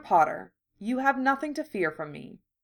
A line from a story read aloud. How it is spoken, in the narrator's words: Narcissa said quietly